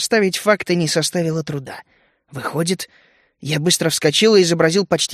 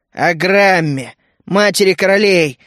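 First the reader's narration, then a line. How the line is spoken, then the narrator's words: Growled through teeth. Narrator (Russian): рыкнула сквозь зубы Галия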